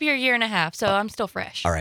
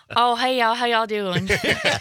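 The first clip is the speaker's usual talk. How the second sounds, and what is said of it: Exaggerated Southern Georgia accent. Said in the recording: “You haven't lost your accent ... if you really laid it on, if you were talking to somebody from back in Georgia”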